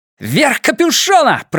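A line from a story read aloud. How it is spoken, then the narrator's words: Shouted. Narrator (Russian): прокричал Эдди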